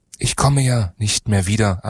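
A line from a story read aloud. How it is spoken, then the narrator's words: Plain answer. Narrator (German): antwortete er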